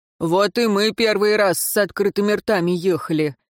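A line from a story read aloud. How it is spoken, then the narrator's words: Good-natured chuckle. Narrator (Russian): добродушно хмыкнул старшина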